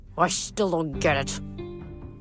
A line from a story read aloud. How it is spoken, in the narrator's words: Coach Hatch muttered